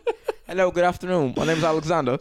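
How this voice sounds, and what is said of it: Posh put-on English accent. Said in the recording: “how to do an English accent ... Oh, you went posh, too.”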